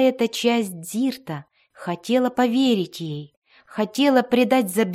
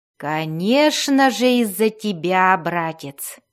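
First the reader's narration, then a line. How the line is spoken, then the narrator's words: Purring voice. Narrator (Russian): мурлыкающим голосом ответила Бриза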